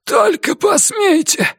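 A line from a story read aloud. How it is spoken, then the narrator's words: Hoarse shout. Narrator (Russian): хрипло закричал Ричардсон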